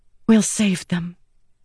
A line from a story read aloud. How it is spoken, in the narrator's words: Shallan whispered